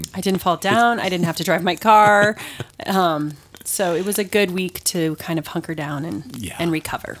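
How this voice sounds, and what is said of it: Voice sounds off from illness. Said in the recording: “I sound a little different today ... I know I sound different, everybody. And that's because I was sick last week”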